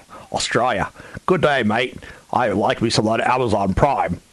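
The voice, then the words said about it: Bad put-on Australian accent. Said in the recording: “that's the worst Australian accent I've ever heard. ... the worst Australian accent of all time”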